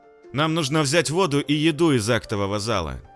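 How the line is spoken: Loud. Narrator (Russian): громко проговорил он

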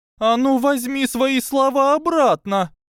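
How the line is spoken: Shout. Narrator (Russian): закричала Трейси

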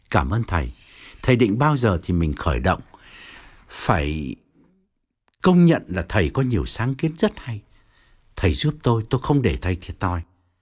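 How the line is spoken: Gentle repetition. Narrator (Vietnamese): Ông dịu dàng lặp lại

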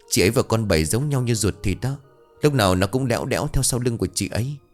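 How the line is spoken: Soft reply. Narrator (Vietnamese): Hường chỉ khẽ đáp

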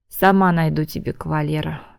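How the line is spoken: Sighing. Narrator (Russian): вздохнула Ленка

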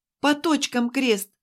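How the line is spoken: Whimpering. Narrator (Russian): Мне показалось, что она хныкала как-то

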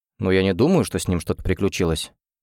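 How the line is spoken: Mutter. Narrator (Russian): пробормотал Оливер

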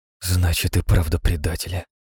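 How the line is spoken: Boy mutters. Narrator (Russian): пробормотал мальчик

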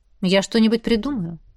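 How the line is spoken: Plain. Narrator (Russian): наконец ответил он

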